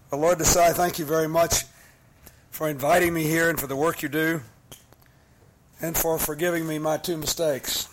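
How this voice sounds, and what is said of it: Rough, bad-sounding voice. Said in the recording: “You can hear that my voice is terrible.”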